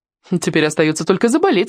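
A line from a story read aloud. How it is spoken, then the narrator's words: Snorting. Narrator (Russian): хмыкнула та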